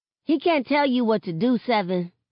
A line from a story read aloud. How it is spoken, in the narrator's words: Sakani chirps